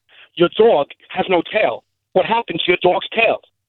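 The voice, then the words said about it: Christopher Walken impression. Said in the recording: “Jay Mohr doing Christopher Walken ... his Christopher Walken impression”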